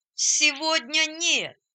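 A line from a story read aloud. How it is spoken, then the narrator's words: Joyful group shouting. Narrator (Russian): радостно закричали они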